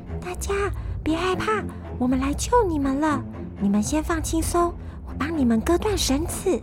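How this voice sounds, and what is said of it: Soft whispered voice. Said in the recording (Chinese): “小声的对他们说”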